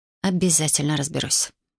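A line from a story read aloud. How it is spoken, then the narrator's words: Muttered. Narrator (Russian): пробормотала я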